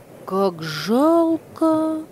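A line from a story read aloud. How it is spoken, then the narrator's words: Child's exclamation. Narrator (Russian): воскликнул мальчик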